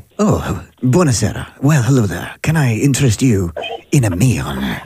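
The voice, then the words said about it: Put-on Italian accent. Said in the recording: “let's do one of the accents ... let's go with Italian first ... So, Italian.”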